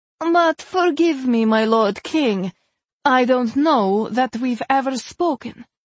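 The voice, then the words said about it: Loud, strong female character voice. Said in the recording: “Her voice was loud, strong. No trace of her tremulous tone remained.”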